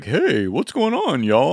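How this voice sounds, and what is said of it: Comic voice of a talking brand. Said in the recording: “doing that voice. ... a recording of Miracle Whip, the brand, talking. That's what they sound like.”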